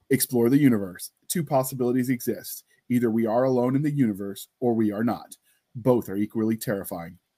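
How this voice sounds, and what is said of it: Dramatic movie trailer narrator voice. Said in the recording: “try my movie trailer voice. ... Don't judge me when I screw it up”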